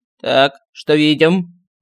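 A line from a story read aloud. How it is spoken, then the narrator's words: Stern teacherly voice. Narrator (Russian): Строгим учительским голосом поинтересовался стальной кружок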